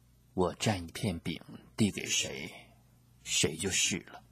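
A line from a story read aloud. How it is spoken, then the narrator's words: Quiet answer. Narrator (Chinese): 耶稣小声地回答说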